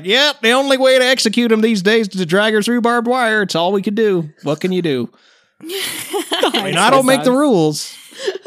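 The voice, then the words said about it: Southern American accent. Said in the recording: “have a Southern American accent”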